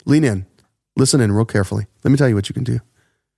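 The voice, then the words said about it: Lowered, soft NPR-style voice. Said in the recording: “I brought my voice down ... NPR voice.”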